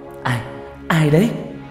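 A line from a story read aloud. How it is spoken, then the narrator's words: Trembling question. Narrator (Vietnamese): Tôi run run hỏi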